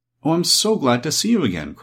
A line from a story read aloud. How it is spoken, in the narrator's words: cried the little Kansas girl